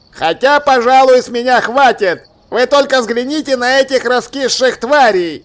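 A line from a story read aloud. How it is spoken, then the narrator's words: Yelling through cupped hands. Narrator (Russian): сложил ладони рупором и заорал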